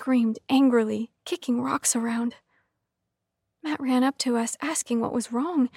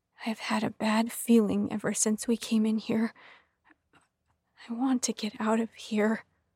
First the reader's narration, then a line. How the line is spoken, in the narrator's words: said, his voice trembling